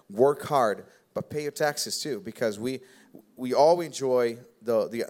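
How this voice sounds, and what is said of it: Slight Brazilian accent. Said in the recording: “I'm, I'm, I'm, also an immigrant. I came from Brazil. I don't know if you guys ever noticed my little bit of accent.”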